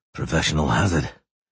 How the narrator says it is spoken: Geralt muttered

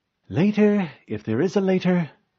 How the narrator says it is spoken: Yayup said wearily

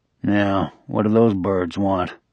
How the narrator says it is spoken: his companion mutter

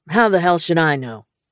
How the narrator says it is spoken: He asked irritably

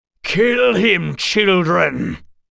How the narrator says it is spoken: he shouted

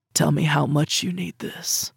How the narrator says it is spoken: he demanded, his voice a scrape

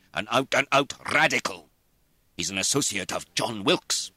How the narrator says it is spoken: said Sir George scornfully

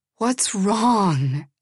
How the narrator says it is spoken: begged for the millionth time

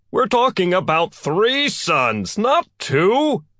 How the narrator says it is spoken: Galileo shouted

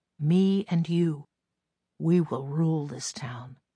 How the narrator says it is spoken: put his mouth to my ear, whispering

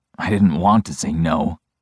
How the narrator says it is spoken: I say roughly

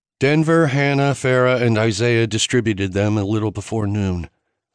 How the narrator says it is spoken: Arden said, her voice completely flat

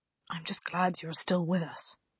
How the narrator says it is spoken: he whispered

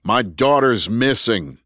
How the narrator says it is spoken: Andrew yelled back

